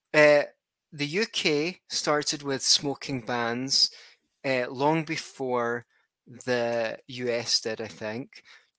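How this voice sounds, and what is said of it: Scottish accent. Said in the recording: “Scotland ... where I'm from, if anyone hadn't guessed by the accent”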